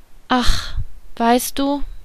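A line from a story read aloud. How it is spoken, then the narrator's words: Hesitant, surprised. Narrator (German): begann sie zögernd und auch verwundert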